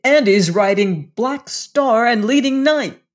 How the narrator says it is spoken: exclaimed instantly

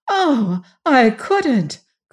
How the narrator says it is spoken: cried Jane

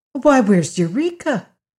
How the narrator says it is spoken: cried Dorothy suddenly

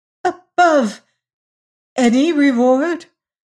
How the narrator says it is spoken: stammered the other, wondering if she heard aright

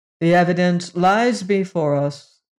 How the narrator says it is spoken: intoned the leader

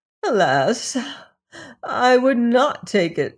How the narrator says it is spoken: sighed Mother Hulda

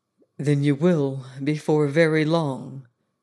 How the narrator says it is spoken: said very gravely

